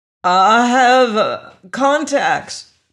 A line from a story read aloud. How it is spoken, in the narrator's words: Twilkin stammered